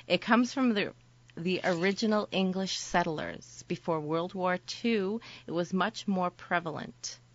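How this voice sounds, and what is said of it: Boston accent. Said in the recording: “the Boston accent ... yours sucks”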